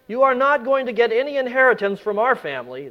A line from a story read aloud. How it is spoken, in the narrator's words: they said